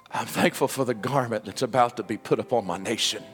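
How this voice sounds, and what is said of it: Emotional voice. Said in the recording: “Please forgive me if I'm a little emotional this morning”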